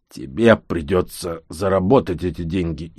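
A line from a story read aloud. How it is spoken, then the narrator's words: Growled. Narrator (Russian): Инап рыкнул Кингш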